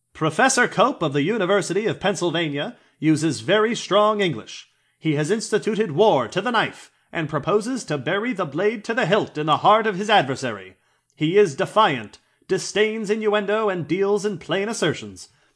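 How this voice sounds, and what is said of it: Old-timey 1920s newsreader voice. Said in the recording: “I'm going to read this in that old-timey, like, 1920s news voice.”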